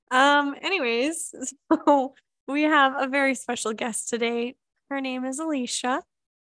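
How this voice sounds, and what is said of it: Raspy, hoarse voice. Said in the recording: “don't mind my sex voice here... I'm losing my voice, but it's also kind of nice and raspy.”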